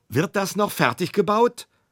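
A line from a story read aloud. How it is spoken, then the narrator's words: Shouting. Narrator (German): schrie Kringelein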